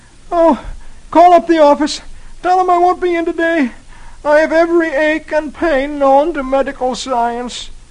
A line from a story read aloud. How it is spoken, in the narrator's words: Dagwood looks as if he were dying and moans